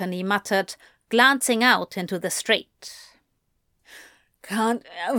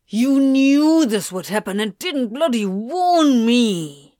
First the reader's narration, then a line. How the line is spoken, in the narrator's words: Crowley snarled